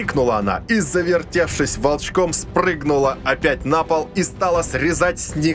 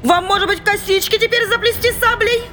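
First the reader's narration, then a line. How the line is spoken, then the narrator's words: Mocking frenzied shout. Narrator (Russian): Издевательски кричала разошедшаяся монашка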